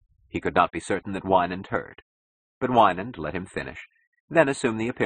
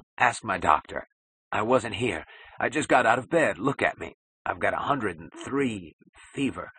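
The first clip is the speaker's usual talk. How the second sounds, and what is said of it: Cracked, voiceless whisper. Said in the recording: “he gulped in a cracked whisper that was not a voice at all.”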